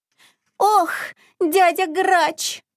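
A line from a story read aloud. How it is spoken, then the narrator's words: Whimpering. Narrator (Russian): захныкал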